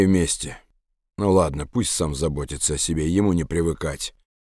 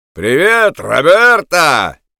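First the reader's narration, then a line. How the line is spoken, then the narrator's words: Cheerful shout. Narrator (Russian): весело крикнул он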